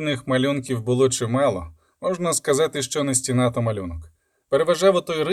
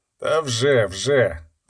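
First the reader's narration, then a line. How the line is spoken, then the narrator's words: Muttering. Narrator (Ukrainian): пробурмотів Ланцнехт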